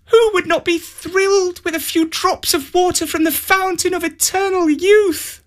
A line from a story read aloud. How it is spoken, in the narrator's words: she exclaimed